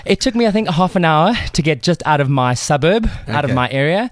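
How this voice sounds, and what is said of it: Out of breath, panting speech. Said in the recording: “I'm a little out of breath ... He ran”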